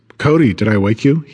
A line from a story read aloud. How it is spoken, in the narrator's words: he asks